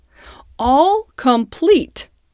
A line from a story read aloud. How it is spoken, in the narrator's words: said the Toad triumphantly